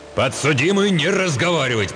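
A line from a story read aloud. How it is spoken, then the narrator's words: Roaring judge. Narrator (Russian): проревел судья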